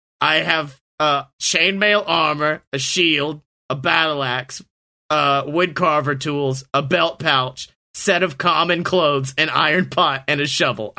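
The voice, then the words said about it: Speaking in a character voice. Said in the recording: “doing this in character voice”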